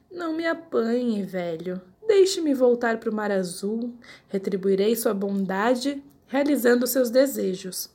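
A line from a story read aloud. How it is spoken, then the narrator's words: Pleading. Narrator (Portuguese): O peixinho dourado implorou com voz humana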